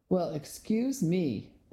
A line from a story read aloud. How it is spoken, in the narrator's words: sneered